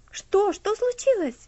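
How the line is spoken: Frightened question. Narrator (Russian): спросил Герберт испуганно

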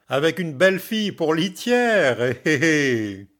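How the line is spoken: Sniggering. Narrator (French): fit l'ami en ricanant

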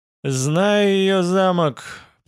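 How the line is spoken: Gloomy voice. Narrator (Russian): проговорил он мрачным голосом

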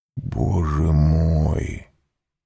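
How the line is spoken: Barely audible whisper. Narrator (Russian): еле слышно прошептал Вильфор

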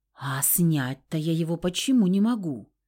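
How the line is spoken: Timid hopeful babble. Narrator (Russian): тихонько пролепетала я, надеясь, что высокопоставленная гостья снизойдет до ответа

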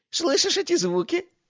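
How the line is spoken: Giggling. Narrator (Russian): хихикнул бог

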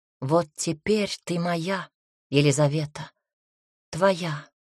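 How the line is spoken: Whispered. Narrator (Russian): прошептал

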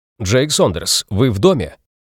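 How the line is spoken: Loud. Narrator (Russian): громко добавил

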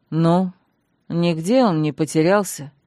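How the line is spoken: Weary question. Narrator (Russian): устало осведомился Танрад

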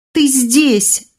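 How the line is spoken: Excited yell. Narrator (Russian): завопила Эсса

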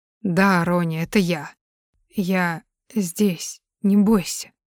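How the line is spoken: Hoarse reply. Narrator (Russian): хрипло отвечает он

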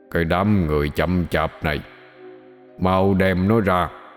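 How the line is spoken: Deep booming commanding voice. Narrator (Vietnamese): Vẫn là giọng nói ồm ồm đầy quy lực đó, thằng Từ nói

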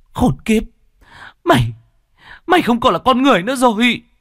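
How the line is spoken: Trembling, frenzied woman. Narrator (Vietnamese): Ả đàn bà run rẩy vì kích động, càng lúc càng trở nên điên dại

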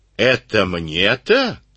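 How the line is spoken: Hoarse wheeze. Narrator (Russian): снова просипел он

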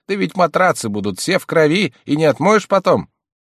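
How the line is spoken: Woman shouting. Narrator (Russian): Женщина закричала

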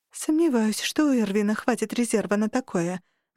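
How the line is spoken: Sigh. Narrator (Russian): вздохнула

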